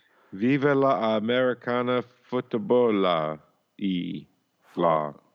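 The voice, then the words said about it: Put-on foreign accent. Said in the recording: “those speech classes, learning that accent is really paying off ... we're going to be rich here with that accent.”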